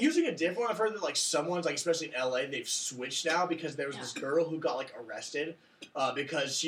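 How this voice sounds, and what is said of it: Usual voice. Nothing is said of it.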